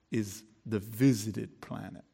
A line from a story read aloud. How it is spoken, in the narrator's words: replied his senior solemnly